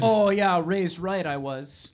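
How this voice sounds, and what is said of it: Put-on Minnesota Midwestern accent. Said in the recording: “You have a Midwestern accent, it sounds like. ... I'm going to keep it up the whole time. ... I'm committed to my character work.”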